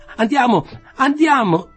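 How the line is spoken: Shouting. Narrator (Italian): grida

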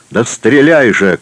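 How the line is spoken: Shouting. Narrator (Russian): кричал Александр

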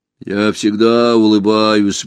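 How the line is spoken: Grumbling. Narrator (Russian): буркнул стражник

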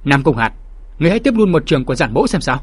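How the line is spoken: Loud shout. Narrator (Vietnamese): có người hét lớn

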